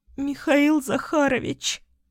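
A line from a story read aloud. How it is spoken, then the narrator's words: Emotional sob. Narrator (Russian): Всхлипнула я, давая волю эмоциям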